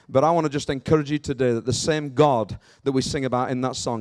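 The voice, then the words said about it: Northern English accent. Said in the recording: “I don't have a Cambridge accent. I'm from a little bit further up north near Rotherham, Sheffield area.”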